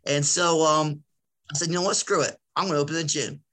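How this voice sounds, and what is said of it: Philadelphia accent. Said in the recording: “I'm from Philadelphia, so I say shore and I say water a lot. So I have an accent. ... I have an accent.”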